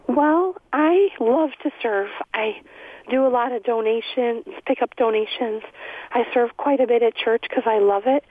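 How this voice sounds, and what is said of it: Hoarse, weak voice. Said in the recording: “I'm getting over laryngitis. ... You don't have to shout. We'll turn the volume up here.”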